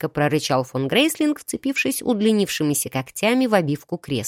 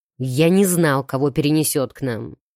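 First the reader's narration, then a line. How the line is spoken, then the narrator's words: Emperor growling reply. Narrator (Russian): рыкнул император в ответ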